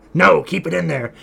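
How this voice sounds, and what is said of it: Imitates another person's voice. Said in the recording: “my terrible Trump impression”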